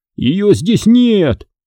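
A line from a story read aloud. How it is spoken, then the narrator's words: Shouting. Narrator (Russian): закричал он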